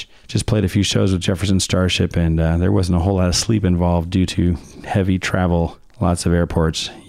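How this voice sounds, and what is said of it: Hoarse, laryngitis-affected voice. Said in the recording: “apologize for my voice. I got thrashed on a tour by some kind of super bug. Sucks, laryngitis”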